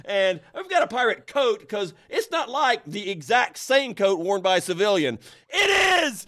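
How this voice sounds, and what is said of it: Yelling angrily. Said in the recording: “I'm yelling into the microphone”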